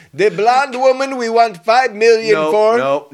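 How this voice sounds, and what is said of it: Put-on African accent. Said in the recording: “we're not doing that accent. We are not doing African accents”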